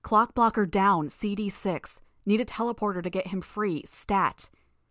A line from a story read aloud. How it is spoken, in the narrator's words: I shouted into the armband